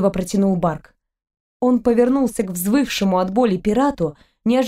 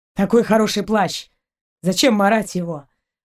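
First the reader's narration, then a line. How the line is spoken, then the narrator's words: Through clenched teeth. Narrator (Russian): процедил капитан сквозь зубы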